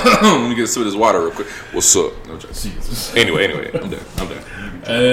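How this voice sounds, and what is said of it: Usual voice. Nothing is said of it.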